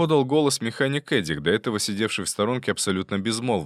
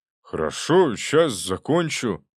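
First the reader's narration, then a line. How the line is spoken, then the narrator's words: Glum. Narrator (Russian): уныло продолжил Эдик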